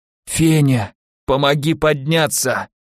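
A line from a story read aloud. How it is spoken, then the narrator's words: Groaning in pain. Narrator (Russian): выдохнул со стоном боли Наумов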